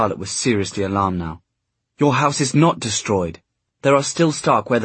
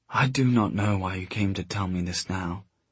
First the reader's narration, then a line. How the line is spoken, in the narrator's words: she murmured